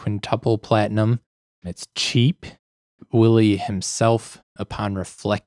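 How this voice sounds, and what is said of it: Usual voice. Nothing is said of it.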